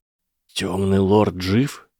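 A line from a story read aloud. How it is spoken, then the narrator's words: Forced out. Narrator (Russian): выдавил он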